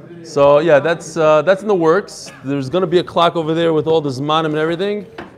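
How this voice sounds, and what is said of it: Brooklyn accent. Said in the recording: “I lived in Brooklyn for many years, as you can probably tell from my accent.”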